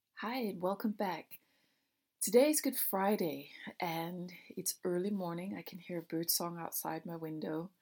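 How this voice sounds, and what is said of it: Groggy, just-woken-up morning voice. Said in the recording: “my voice is a bit different, it's because these are the first words I've uttered all day... I got that nice morning voice”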